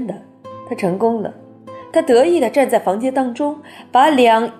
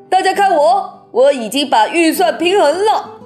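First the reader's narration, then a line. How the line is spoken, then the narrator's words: Exclaiming. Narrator (Chinese): 财政总顾问叫起来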